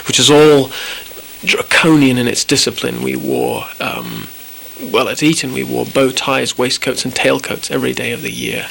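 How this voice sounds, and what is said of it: Mixed British and American accent. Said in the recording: “an accent that is both British and American”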